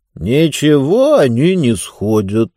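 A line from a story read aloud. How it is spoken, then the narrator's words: Calm reply. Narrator (Russian): спокойно ответил Мортур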